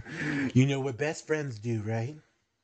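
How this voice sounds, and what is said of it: Creepy voice. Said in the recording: “that creepy voice”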